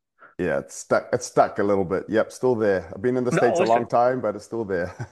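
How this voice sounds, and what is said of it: New Zealand accent. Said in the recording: “Now I'm noticing an accent. Where are you from originally? ... I'm originally from New Zealand. ... I could totally pick up the accent.”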